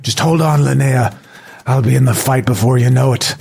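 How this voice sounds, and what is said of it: Weird put-on Irish accent. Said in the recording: “a weird Irish accent that came out”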